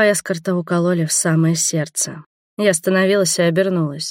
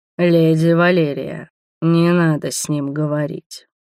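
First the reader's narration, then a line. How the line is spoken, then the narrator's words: Deep belligerent growl. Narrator (Russian): утробно прорычал, воинственно нахохлившись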